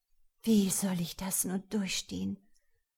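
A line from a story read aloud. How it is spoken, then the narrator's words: Whispering to herself. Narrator (German): flüsterte sie leise vor sich hin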